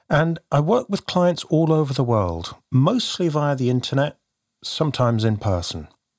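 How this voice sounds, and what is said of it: Southwest English accent. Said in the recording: “You can probably tell from my accent, I hail from the UK. ... near Bristol in the southwest of England”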